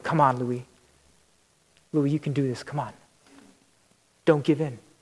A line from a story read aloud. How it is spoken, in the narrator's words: they're all muttering